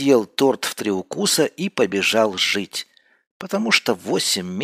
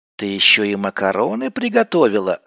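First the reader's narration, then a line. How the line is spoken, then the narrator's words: Joyful barking. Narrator (Russian): радостно залаял я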